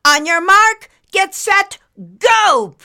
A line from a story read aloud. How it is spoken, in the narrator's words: Principal Concave shouted